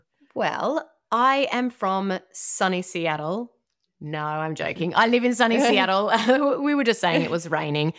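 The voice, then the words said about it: Australian accent. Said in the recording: “hear the accent in your voice ... originally from Australia”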